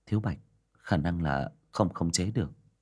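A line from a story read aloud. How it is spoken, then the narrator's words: Sighing. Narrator (Vietnamese): Diệp Đình Vân thở dài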